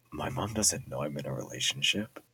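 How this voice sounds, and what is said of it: Whispering. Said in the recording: “I'm gonna whisper for this.”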